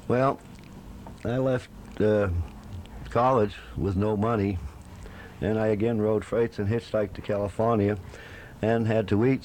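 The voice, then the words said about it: New England accent. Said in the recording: “I noticed you brought one other thing with you from New England, your accent.”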